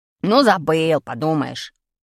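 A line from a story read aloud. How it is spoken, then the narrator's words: Angry reply. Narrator (Russian): Сердито ответил Колька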